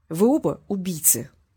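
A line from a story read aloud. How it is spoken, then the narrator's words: Plain. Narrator (Russian): сказал Васильев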